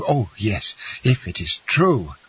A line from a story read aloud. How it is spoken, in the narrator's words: cried the young man